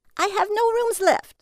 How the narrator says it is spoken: she screamed

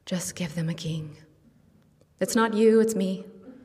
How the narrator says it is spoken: God sighs

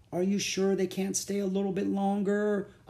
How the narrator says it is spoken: whined

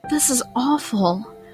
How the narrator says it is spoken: I whispered to Marie

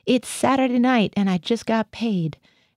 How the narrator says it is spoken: I heard Gothia howl

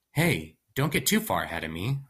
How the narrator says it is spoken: I said

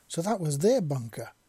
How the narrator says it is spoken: Wisp exclaimed

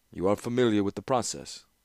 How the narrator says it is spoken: nodded and said dryly

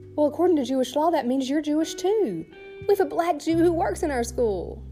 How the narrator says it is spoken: the headmaster, a woman, she exclaimed

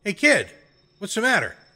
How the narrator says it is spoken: yelled

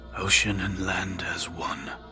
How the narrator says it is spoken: his mind murmured dreamily

